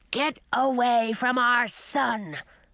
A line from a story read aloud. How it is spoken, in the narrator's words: a voice growled behind me